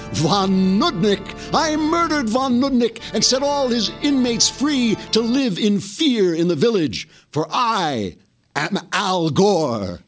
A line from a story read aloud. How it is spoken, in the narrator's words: The man cried